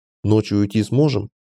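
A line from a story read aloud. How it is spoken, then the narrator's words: Plain question. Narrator (Russian): спросил я Джона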